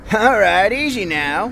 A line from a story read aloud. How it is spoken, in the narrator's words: he said in a semi-stupor as he chuckled triumphantly